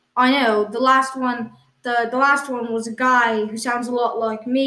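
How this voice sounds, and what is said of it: Usual voice. Nothing is said of it.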